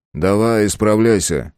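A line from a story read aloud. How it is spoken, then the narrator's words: Amused grunt. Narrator (Russian): хмыкнул он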